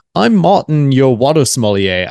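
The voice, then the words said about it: Deliberately poor German accent. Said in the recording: “I had a terrible German accent there”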